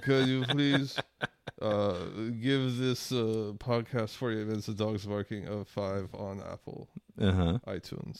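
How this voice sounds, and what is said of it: Put-on faux French-sounding accent. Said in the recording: “in that shitty, weird faux French accent that Israelis have”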